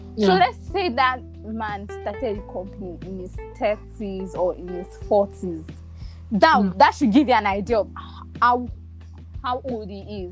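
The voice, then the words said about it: Lagos Nigerian English accent. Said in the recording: “My accent is coming. Sorry, I've lived in Lagos for so long. I'm practically a Lagosian.”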